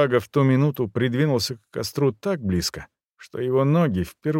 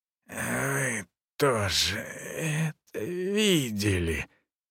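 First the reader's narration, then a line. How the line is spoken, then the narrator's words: Hoarse wheeze. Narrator (Russian): просипел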